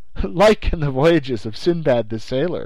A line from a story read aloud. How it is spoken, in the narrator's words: I answered, laughing